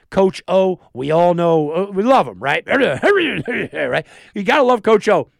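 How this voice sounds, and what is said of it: Coach O impersonation. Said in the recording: “That was my Coach O impersonation. By the way, it was nailed it.”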